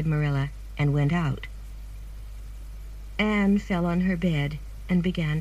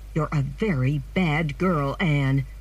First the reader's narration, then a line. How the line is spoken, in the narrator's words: Marilla said angrily